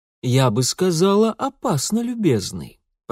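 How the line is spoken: Cooing. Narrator (Russian): проворковала дама в кремовом платье

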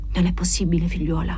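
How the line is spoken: Murmured, suppressing boiling anger. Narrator (Italian): mormorò lui, cercando di domare la propria collera bollente

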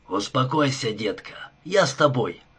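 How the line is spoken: Plain. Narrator (Russian): сказал он

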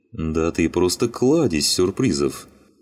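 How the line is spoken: Laughing. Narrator (Russian): рассмеялся Васин

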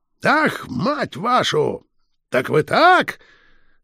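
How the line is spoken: Wheezing, consumptive cough. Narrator (Russian): С хрипом, чахоточным кашлем

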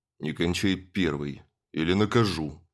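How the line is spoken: Stern. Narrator (Russian): строго сказал Андрей Павлович

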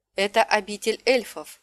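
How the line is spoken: Plain. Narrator (Russian): ответила Талия

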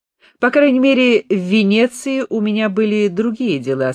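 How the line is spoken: Plain. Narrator (Russian): сказал Хиллер

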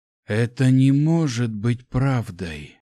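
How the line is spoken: Hoarse whisper. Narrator (Russian): хрипло прошептал

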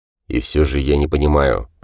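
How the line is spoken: Muttered. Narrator (Russian): пробормотал Гант

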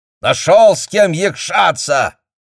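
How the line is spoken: Furious yelling at son. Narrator (Russian): орал Ливан Кабляшвили на сына

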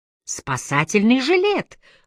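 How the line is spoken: Exclamation. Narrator (Russian): воскликнула мама

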